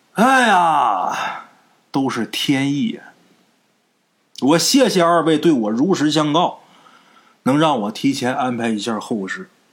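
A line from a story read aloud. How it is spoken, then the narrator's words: Long sigh. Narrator (Chinese): 李石泉一声长叹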